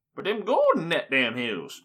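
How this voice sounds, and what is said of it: Slow, bad old-timey prospector voice. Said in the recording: “you speak really slow and in an old-timey prospector voice ... That was a really bad impression”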